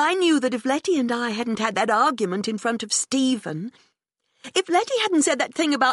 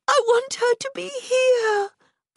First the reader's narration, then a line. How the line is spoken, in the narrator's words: I cried